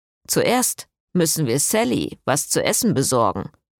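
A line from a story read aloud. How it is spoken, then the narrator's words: Grumbling. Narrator (German): brummte Jason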